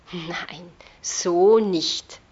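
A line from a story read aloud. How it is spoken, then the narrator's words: Sighing. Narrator (German): seufzte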